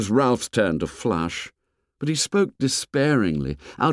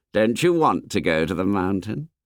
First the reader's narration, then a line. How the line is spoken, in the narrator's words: Ralph sighed, sensing the rising antagonism